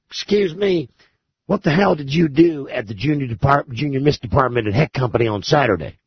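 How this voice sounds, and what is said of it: Imitated Southern accent. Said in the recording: “He's got a southern accent.”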